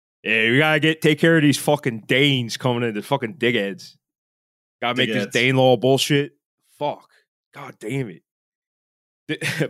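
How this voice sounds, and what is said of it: Put-on Philadelphia accent. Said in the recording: “that's the origin of Philadelphia accent ... That's just how Alfred the Great spoke.”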